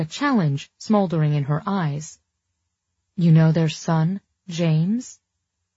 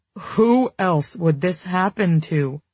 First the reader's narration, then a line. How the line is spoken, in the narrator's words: He moaned